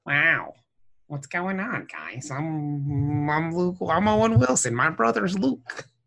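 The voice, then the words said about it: Imitates another person's voice. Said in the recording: “my best Owen Wilson impersonation ... It's pretty good.”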